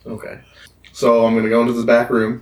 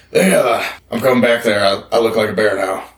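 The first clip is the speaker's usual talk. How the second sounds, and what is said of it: Bear character voice. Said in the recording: “speak in my bear voice”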